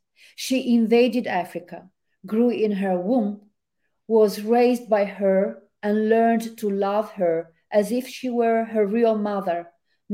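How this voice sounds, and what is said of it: Italian accent. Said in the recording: “I love you reading in your accent. It's just lovely. ... excuse my Italian accent.”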